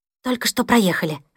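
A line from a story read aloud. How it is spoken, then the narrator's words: Whispered female reply. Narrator (Russian): ответила она шепотом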